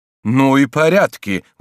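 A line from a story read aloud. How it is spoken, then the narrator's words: Exclaimed. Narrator (Russian): воскликнул он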